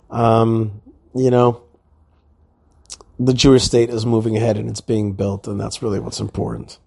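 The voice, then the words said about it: Slightly tired voice. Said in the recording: “Maybe you can hear it in my voice. I'm a tad tired.”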